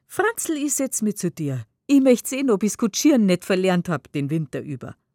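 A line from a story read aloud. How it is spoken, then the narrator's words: Laughing. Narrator (German): sie meint lachend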